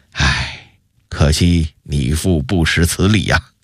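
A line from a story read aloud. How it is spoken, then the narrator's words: Satisfied sigh. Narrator (Chinese): 永乐帝的脸上露出一丝满意的笑容，紧接着又一叹道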